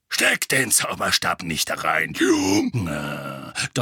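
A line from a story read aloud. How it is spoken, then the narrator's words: Thundering. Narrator (German): donnerte Moody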